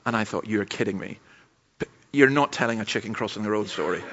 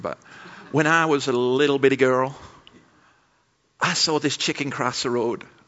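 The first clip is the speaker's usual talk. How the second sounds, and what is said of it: Put-on accent quoting a speaker. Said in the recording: “Sorry for the accent”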